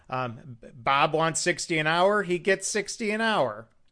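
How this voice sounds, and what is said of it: Michigan accent. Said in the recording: “kind of a Michigan accent”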